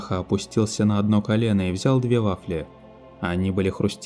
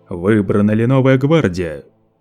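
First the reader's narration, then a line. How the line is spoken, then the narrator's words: Thunderous question. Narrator (Russian): Громовым голосом Лето вопросил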